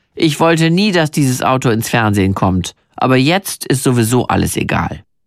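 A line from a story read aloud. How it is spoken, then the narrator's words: Dry, flat voice. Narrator (German): meinen Mann trocken sagen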